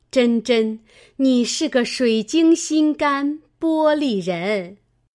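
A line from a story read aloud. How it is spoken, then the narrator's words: Laughing. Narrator (Chinese): 李纨笑道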